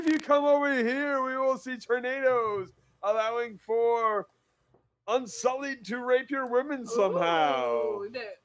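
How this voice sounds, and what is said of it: Drunken slurred speech. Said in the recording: “This drunk accent, though, it's fucking crazy. ... Yours.”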